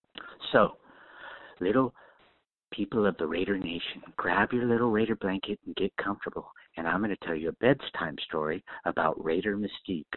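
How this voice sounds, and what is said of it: Silly bedtime-story voice. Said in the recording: “put on a silly little voice”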